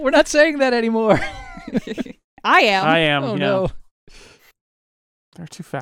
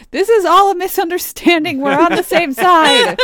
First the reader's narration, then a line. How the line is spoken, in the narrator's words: I yell